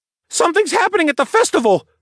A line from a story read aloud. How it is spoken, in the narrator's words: the stable boy replied in a panicked voice